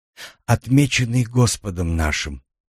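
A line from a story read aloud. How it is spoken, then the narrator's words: Whisper. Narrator (Russian): прошептала она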